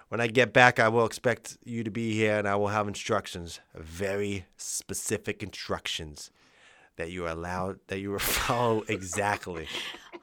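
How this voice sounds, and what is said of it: Put-on accent for a mobster character. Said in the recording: “doing the accent ... doing Freddie”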